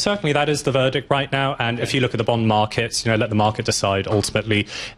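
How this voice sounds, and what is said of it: English accent. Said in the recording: “how ... has a English accent from Minnesota”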